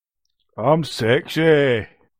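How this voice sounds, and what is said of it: Put-on Scottish accent. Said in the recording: “You just did a Scottish accent of a Scottish accent. That was good.”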